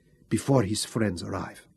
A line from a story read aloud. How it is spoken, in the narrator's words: said softly